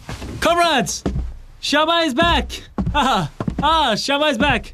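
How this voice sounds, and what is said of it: Shouting. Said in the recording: “stop shouting”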